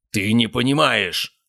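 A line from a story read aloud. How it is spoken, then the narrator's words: Barked. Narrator (Russian): рявкнул Гаспар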